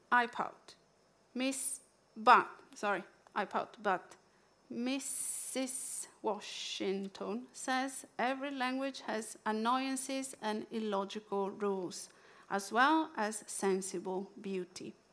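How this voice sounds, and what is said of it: Italian accent. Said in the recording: “me reading with my Italian accent”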